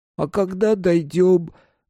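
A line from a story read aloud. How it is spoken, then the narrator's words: Nasal question. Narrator (Russian): гнусаво спросил братец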